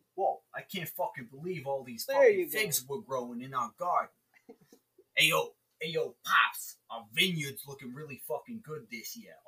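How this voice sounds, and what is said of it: Put-on Brooklyn accent. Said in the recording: “I can't do a Brooklyn accent.”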